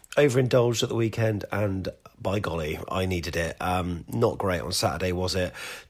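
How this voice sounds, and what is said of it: Slightly hoarse voice. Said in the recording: “my voice sounds a little bit hoarse”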